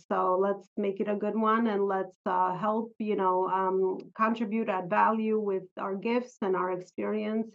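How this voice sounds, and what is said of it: Slight New York-Albanian mixed accent. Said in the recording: “I hear a little accent, and we discovered it's a mixture. You're a mixture of some New York ... as well as Albanian.”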